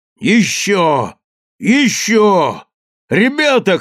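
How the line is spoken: Shouting. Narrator (Russian): кричал старший команды

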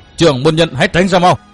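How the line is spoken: Loud shout. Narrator (Vietnamese): Vân Trung Tử quát to

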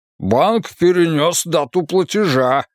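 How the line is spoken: Indignant reply. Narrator (Russian): возмущенно ответил

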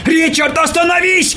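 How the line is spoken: Shout. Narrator (Russian): крикнул

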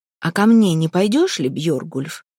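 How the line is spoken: Plain question. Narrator (Russian): спросил Торир

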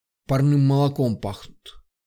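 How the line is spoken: Purring under breath. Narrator (Russian): промурлыкал себе под нос

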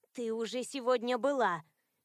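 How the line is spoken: Displeased grumble. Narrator (Russian): недовольно буркнула Мира

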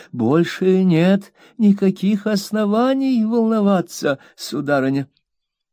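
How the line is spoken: Silky, ingratiating tone. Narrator (Russian): Самым вкрадчивым тоном сказал мистер Чилип

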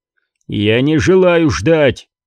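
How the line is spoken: Feigned growl. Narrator (Russian): зарычал Скордж, продолжая играть свою роль

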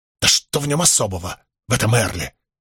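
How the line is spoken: Curt and angry. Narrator (Russian): сердито бросил он

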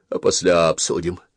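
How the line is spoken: Almost calm. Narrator (Russian): продолжал он почти спокойно

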